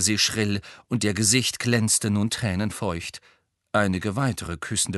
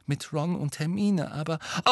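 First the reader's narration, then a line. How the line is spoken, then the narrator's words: Whispering. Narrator (German): sagte Harry im Flüsterton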